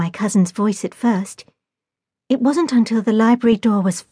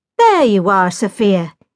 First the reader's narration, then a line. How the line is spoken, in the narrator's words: exclaimed my cousin Jack loudly